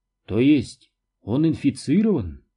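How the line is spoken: Calm. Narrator (Russian): спокойно сказала Маргарет

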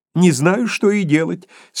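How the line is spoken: Laughing through tears, exclaiming. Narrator (Russian): смеясь сквозь слезы, воскликнул Скрудж

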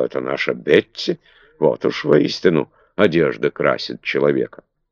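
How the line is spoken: Muttering. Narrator (Russian): Кастл бормотала

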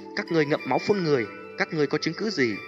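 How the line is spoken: Ashamed, angry scolding. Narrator (Vietnamese): Vô Diễm Tôn Giả thẹn quá hóa giận, quát mắng

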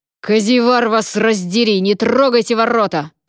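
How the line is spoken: Furious roar while struggling. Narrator (Russian): проревел сэр Радомир, яростно вырываясь из схватки державших его стражников

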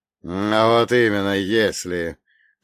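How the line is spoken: Through clenched teeth. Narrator (Russian): процедил сквозь зубы Фролов

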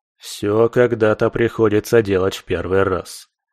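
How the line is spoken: Smirking snort. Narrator (Russian): хмыкнул скальпель

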